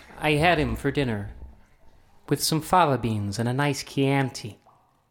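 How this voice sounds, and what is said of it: Put-on American accent. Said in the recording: “That was appalling. ... That was better. Well, at least I have a believable American accent”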